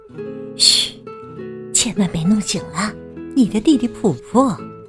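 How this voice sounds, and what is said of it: Whispered soft voice. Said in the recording (Chinese): “小声说”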